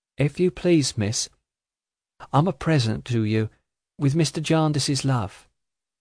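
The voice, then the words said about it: Soft voice of a little girl. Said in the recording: “in a soft voice ... in the same soft voice”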